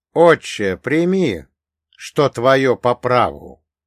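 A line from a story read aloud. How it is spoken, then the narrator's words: Loud, filling the room. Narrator (Russian): сказал я громко на всю палату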